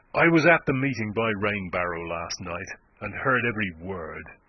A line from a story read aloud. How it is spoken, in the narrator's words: he said